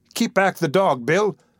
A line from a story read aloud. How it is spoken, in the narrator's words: cried Nancy